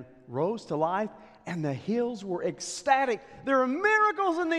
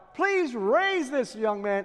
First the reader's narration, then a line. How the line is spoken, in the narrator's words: cried out to God